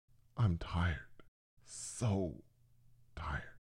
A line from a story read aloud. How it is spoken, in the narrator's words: in a quieter voice said